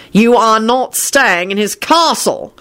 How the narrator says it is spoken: Shacklebolt roared

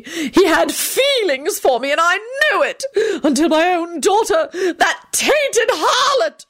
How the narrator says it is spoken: she shrieked

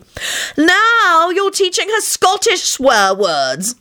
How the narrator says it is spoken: Elizabeth wailed

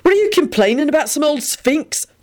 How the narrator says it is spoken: Benji put in irritably

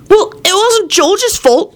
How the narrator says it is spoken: Timothy said hotly

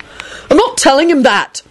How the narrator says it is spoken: Neville yelled in an outraged voice

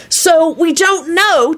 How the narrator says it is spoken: Timothy yelled out, apparently realizing this was the only way to be heard above John

